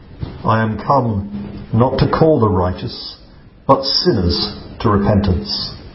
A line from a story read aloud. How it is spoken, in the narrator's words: He answered solemnly